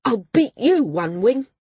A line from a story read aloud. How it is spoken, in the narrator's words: Care snapped back